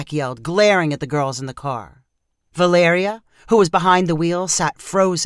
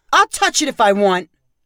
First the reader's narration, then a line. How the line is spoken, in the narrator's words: Zach yelled back